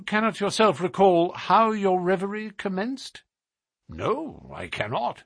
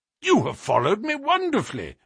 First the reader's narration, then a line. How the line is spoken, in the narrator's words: I exclaimed